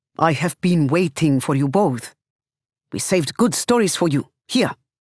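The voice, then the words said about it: Heavy foreign accent. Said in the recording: “albeit with a heavy accent.”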